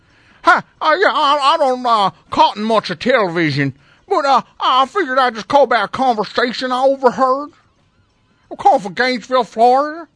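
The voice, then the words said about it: Exaggerated, poor southern accent. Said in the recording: “The worst southern accent I ever heard”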